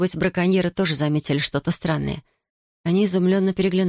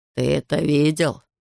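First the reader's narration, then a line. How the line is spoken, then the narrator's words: Hoarse-voiced question. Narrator (Russian): спросил Эрика сиплый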